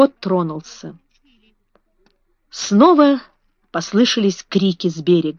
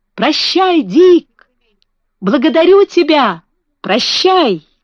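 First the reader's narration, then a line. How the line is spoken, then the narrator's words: Shouting. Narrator (Russian): Маленький лорд Фаунтлерой кричал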